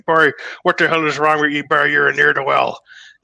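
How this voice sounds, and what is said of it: Pirate-like drunken Irish sailor accent. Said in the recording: “sounded like a pirate, something between like a drunken Irish sailor and a pirate ... his accent ... impersonate him”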